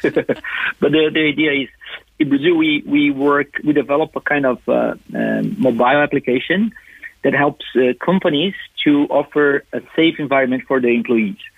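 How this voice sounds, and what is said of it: Brazilian-accented English. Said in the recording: “I have this charming accent... this is the Brazilian English that I can talk”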